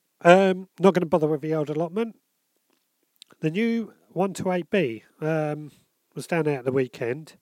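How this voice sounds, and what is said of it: Congested, bunged-up voice. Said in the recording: “I've got a bit of a cold I think coming on, so I'm a bit bunged up.”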